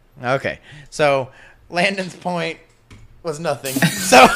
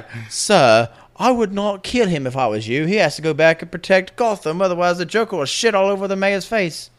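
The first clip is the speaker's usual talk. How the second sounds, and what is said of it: Imitates a fictional butler AI voice. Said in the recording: “my Jarvis impression. Please don't hate me.”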